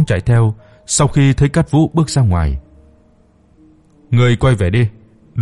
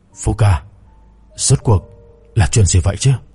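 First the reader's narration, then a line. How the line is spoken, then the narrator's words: Breathless, panting. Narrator (Vietnamese): Trung Cẩm Lượng thở hổn hển nói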